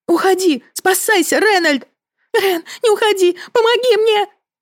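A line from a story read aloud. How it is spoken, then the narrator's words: Panicked shrieking. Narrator (Russian): Визжала Агата, болтая в панике ногами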